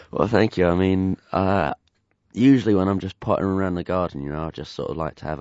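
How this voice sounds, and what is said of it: Voice congested from a cold. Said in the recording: “I've got a bit of a nasty cold at the moment, as you can tell from my voice”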